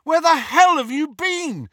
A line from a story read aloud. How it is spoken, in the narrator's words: Harry shouted